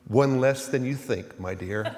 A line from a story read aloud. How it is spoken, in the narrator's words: she said quietly